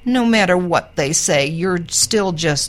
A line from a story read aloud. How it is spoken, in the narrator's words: Snowball sidled up to Raj and whined